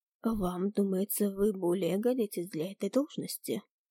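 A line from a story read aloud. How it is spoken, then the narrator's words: Calm question. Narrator (Russian): Спокойным тоном спросил Луций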